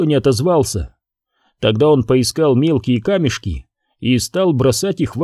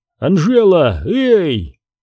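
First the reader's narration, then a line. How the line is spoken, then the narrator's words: Shouted. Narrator (Russian): крикнул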